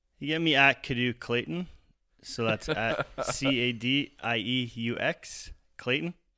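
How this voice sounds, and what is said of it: Canadian accent. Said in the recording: “I love the Canadian accent.”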